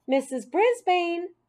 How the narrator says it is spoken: a voice called out

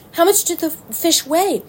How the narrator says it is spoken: asked Wilbur eagerly

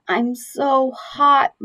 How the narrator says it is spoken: mumbled Keith

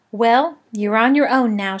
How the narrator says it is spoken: she said

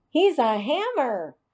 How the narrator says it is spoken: Andy yelled

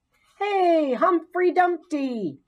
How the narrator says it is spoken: Garth shouted

